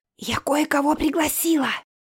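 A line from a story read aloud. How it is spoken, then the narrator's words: Loud whisper through door. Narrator (Russian): Громко прошептала Оля через приоткрытую дверь туалета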